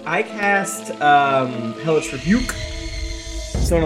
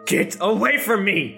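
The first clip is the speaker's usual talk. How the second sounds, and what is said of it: Loud shouted line. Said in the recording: “in a loud voice,”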